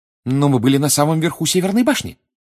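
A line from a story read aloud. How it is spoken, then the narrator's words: Exclaimed. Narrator (Russian): воскликнула Гермиона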